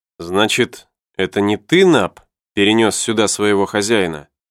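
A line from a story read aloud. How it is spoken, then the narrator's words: Plain question. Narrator (Russian): спросил журналист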